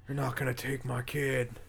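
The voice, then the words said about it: Bad impression of an actor's voice. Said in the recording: “That's a bad Nick Cage impression.”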